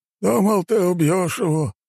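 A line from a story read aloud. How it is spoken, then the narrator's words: Sighing. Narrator (Russian): вздохнул он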